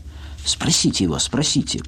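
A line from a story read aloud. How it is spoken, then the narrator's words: Eager triumphant whisper. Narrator (Russian): прошептала Люся, предчувствуя свое торжество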